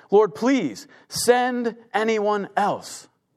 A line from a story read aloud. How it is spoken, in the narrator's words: Moses pleaded again